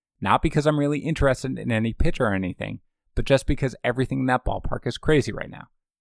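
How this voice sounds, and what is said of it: Tired, run-down voice. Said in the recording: “As you guys can hear from my voice, I'm sure, I'm a little run down”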